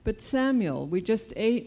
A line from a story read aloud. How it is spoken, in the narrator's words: my grandmother exclaimed